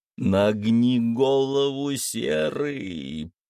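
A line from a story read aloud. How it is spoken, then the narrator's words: Hiss. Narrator (Russian): прошипел друид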